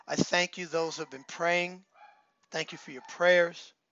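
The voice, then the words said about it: Hoarse voice from a cold. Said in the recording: “battling a cold ... I was losing my voice ... my voice is still not 100%”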